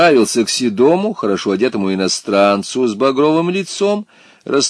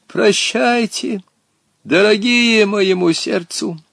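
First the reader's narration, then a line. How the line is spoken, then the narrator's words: Tearful, sepulchral voice. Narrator (Russian): заплакал, гробовым голосом сказал им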